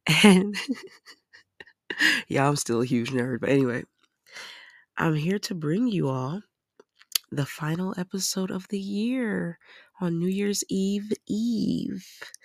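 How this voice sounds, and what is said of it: Raspy voice. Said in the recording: “my voice is a little raspy because I'm getting over a cold, but I like it because it's kind of sexy”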